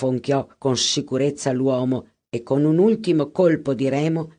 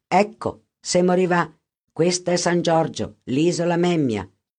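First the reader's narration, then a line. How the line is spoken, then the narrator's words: Plain, boatman. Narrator (Italian): disse il barcaiolo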